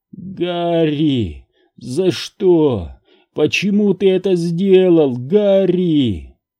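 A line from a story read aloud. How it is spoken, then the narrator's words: Hoarse yell. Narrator (Russian): С хриплым воплем Сентос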